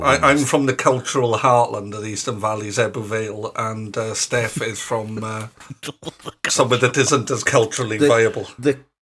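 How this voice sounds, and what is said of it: Welsh accent. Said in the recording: “two people with Welsh accents ... the other guy with a Welsh accent ... our accents aren't going to be hugely different”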